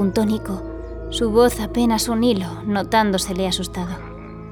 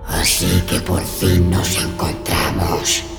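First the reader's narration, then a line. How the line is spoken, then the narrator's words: Terrifying ghostly voice. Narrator (Spanish): dijo el espíritu con una voz que asustó a los tres chicos más de lo que habían estado nunca en su vida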